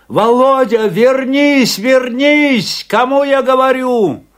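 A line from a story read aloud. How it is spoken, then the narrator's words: Shouting. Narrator (Russian): закричал Афанасий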